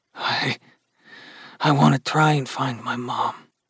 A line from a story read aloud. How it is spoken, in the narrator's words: Gus murmured